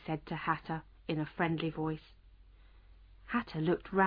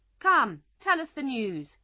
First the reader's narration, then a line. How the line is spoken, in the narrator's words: cried the King